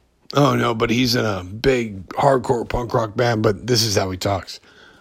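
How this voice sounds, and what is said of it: Usual voice. Nothing is said of it.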